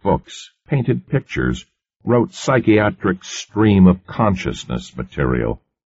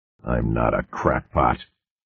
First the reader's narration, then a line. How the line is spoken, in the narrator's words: Cartwright muttered hoarsely